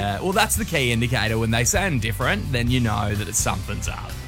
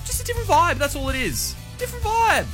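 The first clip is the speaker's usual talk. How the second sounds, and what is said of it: Raised high-pitched voice. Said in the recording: “high his voice is going”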